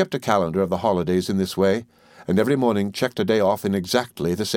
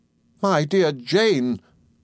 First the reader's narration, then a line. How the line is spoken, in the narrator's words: cried my mother